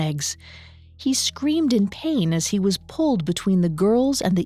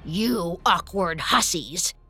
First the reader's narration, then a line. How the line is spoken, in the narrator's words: growled